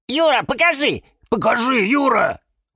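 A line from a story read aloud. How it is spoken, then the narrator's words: Shouting in unison. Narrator (Russian): В один голос закричали Фикус и Валентин и Вениамин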